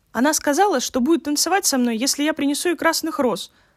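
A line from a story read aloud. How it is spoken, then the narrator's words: Young man exclaiming. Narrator (Russian): воскликнул молодой студент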